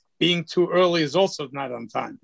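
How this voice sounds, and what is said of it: Germanic accent. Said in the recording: “I love that accent. Wow. ... that Germanic accent”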